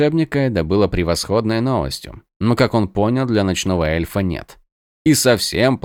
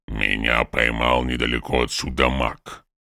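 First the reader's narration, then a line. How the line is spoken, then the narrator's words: Muscular warrior's grumble. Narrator (Russian): проворчал мускулистый воин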